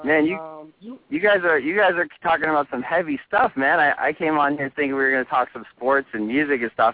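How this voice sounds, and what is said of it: Southern California surfer accent. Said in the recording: “my California surfer accent ... Yeah, you definitely have one, my man.”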